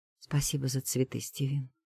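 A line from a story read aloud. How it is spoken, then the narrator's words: Quiet speech. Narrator (Russian): говорит так же тихо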